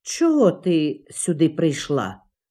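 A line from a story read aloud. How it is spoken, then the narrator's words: Stern icy question. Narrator (Ukrainian): суворо запитав її крижаний місяць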